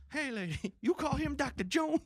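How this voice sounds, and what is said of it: Movie character voice with accent. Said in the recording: “That was the accent we needed.”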